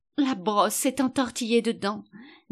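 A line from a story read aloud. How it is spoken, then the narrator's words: Sighing. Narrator (French): dit la reine dans un soupir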